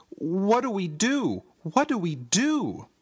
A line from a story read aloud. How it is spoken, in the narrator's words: I cried